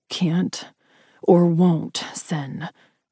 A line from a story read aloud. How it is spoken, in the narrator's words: growled in frustration